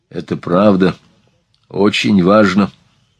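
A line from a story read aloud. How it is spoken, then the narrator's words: Serious tone. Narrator (Russian): подтвердил он серьезным тоном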